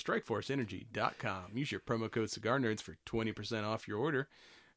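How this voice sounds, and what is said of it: Radio announcer voice. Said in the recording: “You like my uh, announcer voice there?”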